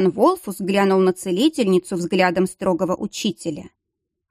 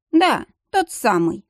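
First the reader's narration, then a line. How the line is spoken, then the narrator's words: Snorting. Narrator (Russian): хмыкнул Риден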